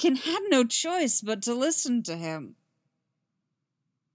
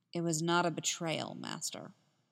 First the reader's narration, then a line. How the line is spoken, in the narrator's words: Anakin spoke in a calm voice